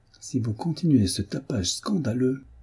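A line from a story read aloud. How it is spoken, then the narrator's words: Barely intelligible, jerky voice. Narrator (French): dit-il d'une voix à peine intelligible, tant elle était saccadée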